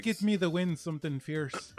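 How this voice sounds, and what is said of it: Put-on Irish accent. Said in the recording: “your fucking Irish accent's better than mine.”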